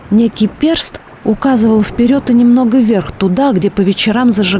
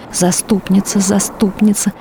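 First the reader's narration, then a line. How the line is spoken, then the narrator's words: Whispered prayer. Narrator (Russian): шептала инокиня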